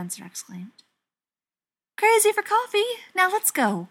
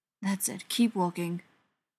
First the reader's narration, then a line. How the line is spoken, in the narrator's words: Ryan muttered